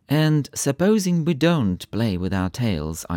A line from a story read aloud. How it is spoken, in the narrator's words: I said